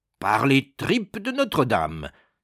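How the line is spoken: Exclaiming. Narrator (French): s'écria Bois Dauphin

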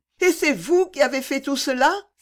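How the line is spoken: Exclaiming. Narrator (French): s'écria Fanny

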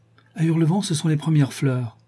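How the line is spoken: Exclaiming. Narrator (French): s'écria-t-elle

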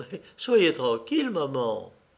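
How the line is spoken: Laughing male reply. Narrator (French): Il répliqua en riant

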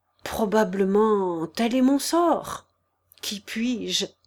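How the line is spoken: Drowsy faint stammer. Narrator (French): balbutia-t-il à peine, vaincu par le sommeil

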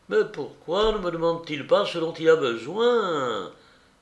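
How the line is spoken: Exclaiming. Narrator (French): s'écria Joseph

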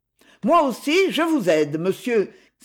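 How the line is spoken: Exclamation. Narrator (French): s'écria Jacques qui accourait

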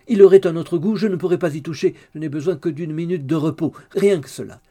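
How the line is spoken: Shouted by widow. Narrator (French): cria la veuve

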